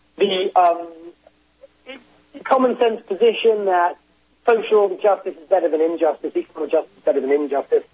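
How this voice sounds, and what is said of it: British accent. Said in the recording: “I'm British, obviously you can tell from my accent”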